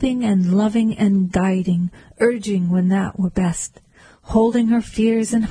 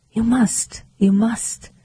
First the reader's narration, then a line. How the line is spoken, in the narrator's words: she whispered